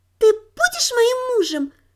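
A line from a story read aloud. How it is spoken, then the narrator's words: Childlike little voice. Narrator (Russian): детским голоском спросила она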